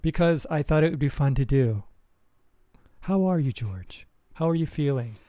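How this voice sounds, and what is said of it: Soft, calm public-radio style voice. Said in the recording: “You got your NPR voice on? ... You've put me in a state of relaxation.”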